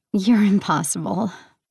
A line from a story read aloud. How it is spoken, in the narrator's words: Hermes chuckled